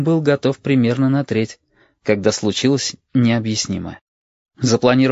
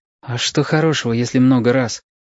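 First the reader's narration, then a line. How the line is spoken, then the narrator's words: Sad, wary child's question. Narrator (Russian): печально и настороженно спрашивал мальчик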